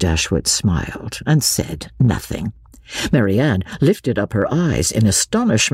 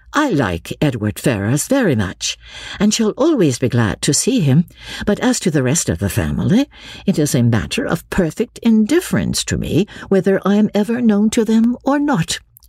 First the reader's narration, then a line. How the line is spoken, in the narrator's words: saying, as calmly as she could